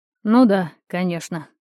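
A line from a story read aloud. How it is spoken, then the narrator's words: Muffled snort. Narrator (Russian): хмыкнули мне в волосы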